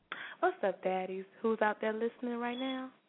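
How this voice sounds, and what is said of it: Put-on sexy, sultry voice. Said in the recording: “get in my sexy voice”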